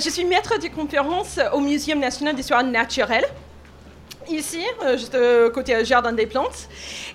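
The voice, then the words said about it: Slight Canadian French accent. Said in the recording (French): “je suis canadienne, alors c'est pour ça que j'ai un petit accent.”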